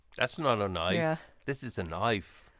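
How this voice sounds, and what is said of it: Impression of Australian film character. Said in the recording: “Crocodile Dundee ... that super accurate impression ... It's an Australian crocodile hunter”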